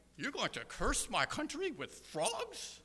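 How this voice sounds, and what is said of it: Comic Monty Python-style Pharaoh voice. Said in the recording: “one of the Monty Python characters playing Pharaoh going, and this is going to be horrible ... There's only one thing worse than my impersonation”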